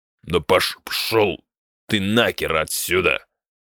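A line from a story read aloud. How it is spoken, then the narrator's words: Hissed. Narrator (Russian): зашипел Доритрет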